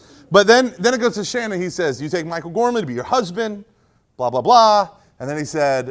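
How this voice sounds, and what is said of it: Usual voice. Nothing is said of it.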